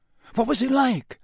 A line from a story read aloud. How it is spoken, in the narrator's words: said Harry eagerly